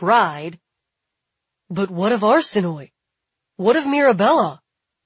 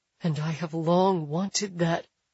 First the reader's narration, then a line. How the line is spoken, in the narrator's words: Billy whispers